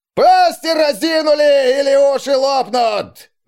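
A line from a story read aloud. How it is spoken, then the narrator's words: Strained shout. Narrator (Russian): Надсаживаясь, заорал новобранцем какой-то сердобольный фельдфебель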